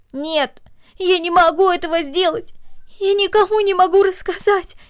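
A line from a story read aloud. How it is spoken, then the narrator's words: Girl speaking through sobs. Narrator (Russian): произнесла девочка между всхлипываниями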